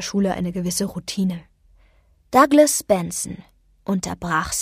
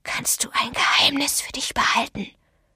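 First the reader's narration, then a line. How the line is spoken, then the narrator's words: Whispered. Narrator (German): flüsterte Douglas Benson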